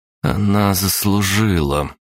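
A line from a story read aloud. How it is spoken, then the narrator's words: Through gritted teeth. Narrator (Russian): процедила Мокош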